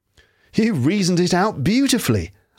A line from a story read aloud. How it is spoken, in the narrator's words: I exclaimed in unfeigned admiration